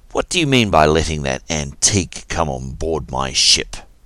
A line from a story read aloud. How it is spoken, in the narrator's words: Kin growled